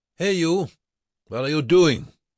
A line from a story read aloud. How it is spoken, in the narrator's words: one of the young SS guards shouted to Bruckmann